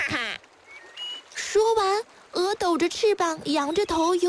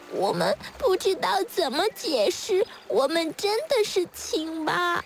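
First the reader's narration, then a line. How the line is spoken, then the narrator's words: Tearful, very quiet tadpoles. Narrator (Chinese): 小蝌蚪们哭哭啼啼地 很小声地说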